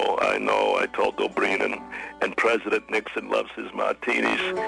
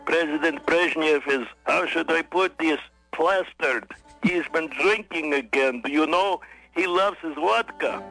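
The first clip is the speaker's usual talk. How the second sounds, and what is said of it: Thick Russian accent. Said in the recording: “with his thick Russian accent”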